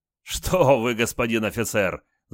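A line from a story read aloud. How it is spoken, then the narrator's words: Laughing loudly. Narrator (Russian): захохотал полицай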